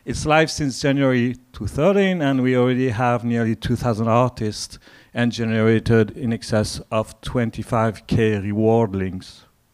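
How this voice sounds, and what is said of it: French accent in English. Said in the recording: “this French accent is working for you in English”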